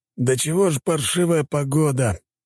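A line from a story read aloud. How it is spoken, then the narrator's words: Grumbling. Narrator (Russian): ворчал моряк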